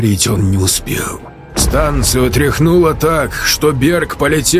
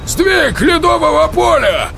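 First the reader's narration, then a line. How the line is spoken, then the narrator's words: Yelling. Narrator (Russian): Заорал Михалыч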